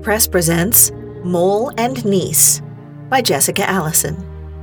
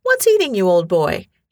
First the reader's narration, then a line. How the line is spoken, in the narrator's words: he asked kindly